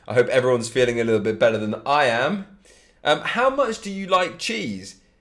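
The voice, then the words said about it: Congested voice with a cold. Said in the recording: “I sound different, it's because I've got a little bit of a cold.”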